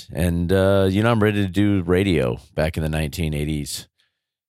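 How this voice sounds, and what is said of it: Unusually deep, radio-like voice. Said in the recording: “my voice is so deep”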